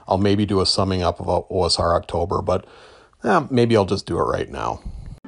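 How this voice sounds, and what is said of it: Strained, fading hoarse voice. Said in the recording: “losing my voice a little bit here”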